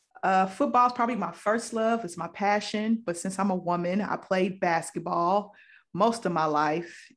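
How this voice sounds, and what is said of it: Slight Southern Midwest twang. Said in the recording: “that little Southern Midwest twang in my voice”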